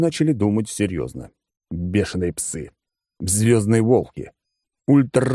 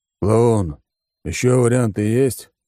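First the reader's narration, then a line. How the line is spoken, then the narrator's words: Weary question. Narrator (Russian): устало спросил Алекс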